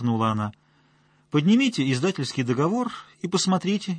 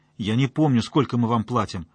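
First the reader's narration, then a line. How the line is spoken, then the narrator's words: Snapping. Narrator (Russian): огрызнулся Воронец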